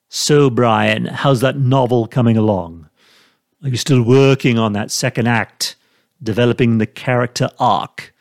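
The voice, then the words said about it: Weak Stewie Griffin impression. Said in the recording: “my lame Stewie Griffin impression”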